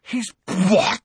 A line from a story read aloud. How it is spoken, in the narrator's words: spluttered Ron, outraged